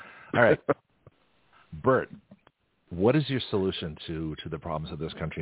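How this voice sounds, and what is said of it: Usual voice. Nothing is said of it.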